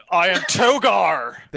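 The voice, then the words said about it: Imitates a film character's voice. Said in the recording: “my best impersonation, because he would like to do the side thing”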